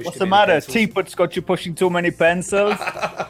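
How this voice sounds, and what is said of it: Bad celebrity impression, sounds Scottish. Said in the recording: “Your Arnie impression's awful. ... Scottish. ... You kind of make Arnie sound like Dick Van Dyke's stunt double from Mary Poppins.”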